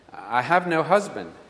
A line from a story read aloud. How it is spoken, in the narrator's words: she replied